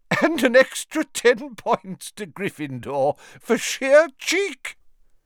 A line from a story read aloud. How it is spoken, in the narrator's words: Still chuckling